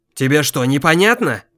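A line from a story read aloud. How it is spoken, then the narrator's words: Irritated shout. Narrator (Russian): Раздраженно крикнул в его сторону Кощей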